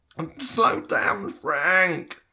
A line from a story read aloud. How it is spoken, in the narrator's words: Tom whined